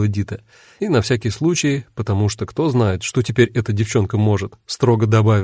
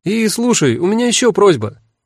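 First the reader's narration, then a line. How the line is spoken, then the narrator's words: Called out after someone. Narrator (Russian): крикнула она вслед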